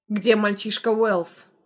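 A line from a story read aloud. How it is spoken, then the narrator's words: Growling. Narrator (Russian): рычал тот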